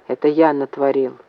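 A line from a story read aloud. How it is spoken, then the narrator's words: Plain. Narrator (Russian): ответил Максим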